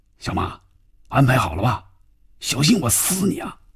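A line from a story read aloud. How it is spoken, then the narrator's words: Tense, lowered voice. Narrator (Chinese): 范宇宙的心里更加紧张了，压低嗓音说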